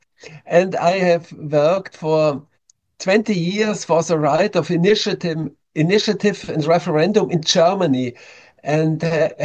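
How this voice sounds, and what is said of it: German accent. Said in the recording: “I'm coming from Germany. You can hear it with my accent.”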